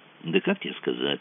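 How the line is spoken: Muttering. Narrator (Russian): пробормотал Мазур

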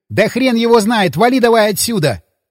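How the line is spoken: Shout. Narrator (Russian): крикнул Дмитрий

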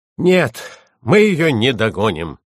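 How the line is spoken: Panting groan. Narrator (Russian): с пыхтением простонал Анти

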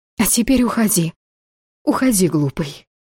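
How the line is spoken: Ashamed exhausted whisper. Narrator (Russian): Внезапно застыдившись, прошептала в изнеможении

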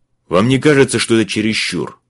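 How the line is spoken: Barked. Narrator (Russian): рявкнул он на Элли

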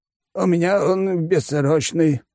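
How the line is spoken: Sighing. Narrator (Russian): вздохнул Компот

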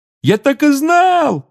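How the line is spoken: Excited yelling. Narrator (Russian): завопил Рон

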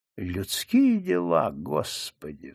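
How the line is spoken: Sighing. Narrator (Russian): вздохнул Губницкий

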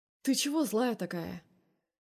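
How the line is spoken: Friendly, affectionate. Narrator (Russian): Голос звучит дружелюбно, я бы даже сказала ласково

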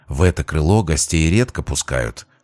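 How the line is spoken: Whispered. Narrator (Russian): шепотом пояснила девушка

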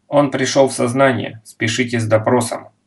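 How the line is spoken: Clipped German, woman. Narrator (Russian): отрывисто по-немецки произнесла женщина

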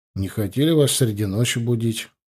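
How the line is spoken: Muttered. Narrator (Russian): пробормотал я

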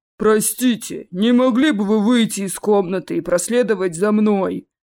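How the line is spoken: Polite bass voice. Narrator (Russian): Любезно поинтересовался кто-то ручным басом

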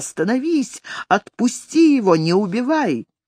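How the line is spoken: Woman's shrieking. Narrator (Russian): с криком вырвалась какая-то женщина, очевидно, жена Этельстана, завизжала

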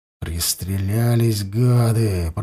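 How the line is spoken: Through gritted teeth. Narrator (Russian): процедил сквозь зубы Баранов

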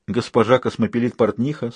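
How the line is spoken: Calm retort. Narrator (Russian): спокойно парировал Людзе

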